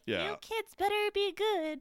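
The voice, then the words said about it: Weird put-on character voice. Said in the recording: “That was a weird voice.”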